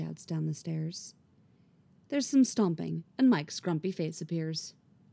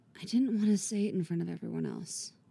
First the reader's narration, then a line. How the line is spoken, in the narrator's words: she whispers